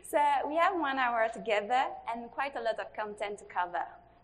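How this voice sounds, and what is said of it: French-sounding Mauritian accent. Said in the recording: “you might listen to her, accent and think, oh, she's from France... She is actually from Mauritius”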